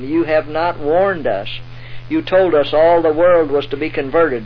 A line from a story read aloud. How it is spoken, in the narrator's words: cried